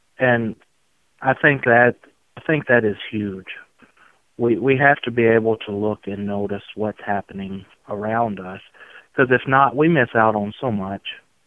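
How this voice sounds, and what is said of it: Sweet Southern drawl. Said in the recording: “this sweet Southern drawl”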